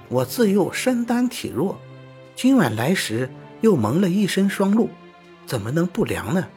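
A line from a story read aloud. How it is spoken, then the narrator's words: Plain. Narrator (Chinese): 说罢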